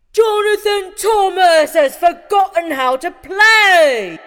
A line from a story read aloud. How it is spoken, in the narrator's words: someone shouted